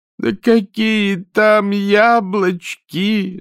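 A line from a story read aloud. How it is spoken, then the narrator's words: Moaning. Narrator (Russian): застонала Афродита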